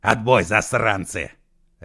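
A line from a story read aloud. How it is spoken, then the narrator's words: Barked. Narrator (Russian): рявкнул Егор Алексеевич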